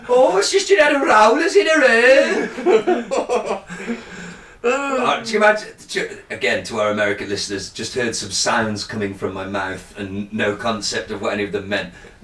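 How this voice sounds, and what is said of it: Birmingham UK accent. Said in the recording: “That is called the Birmingham accent... Not Birmingham, Alabama. It's a little different in Birmingham, the UK.”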